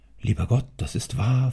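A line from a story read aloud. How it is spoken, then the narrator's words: Whisper. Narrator (German): flüsterte der Magazinier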